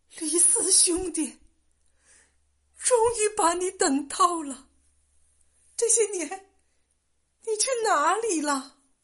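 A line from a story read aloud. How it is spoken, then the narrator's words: Trembling voice. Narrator (Chinese): 声音颤抖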